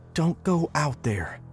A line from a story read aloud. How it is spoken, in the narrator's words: she whispered right in my face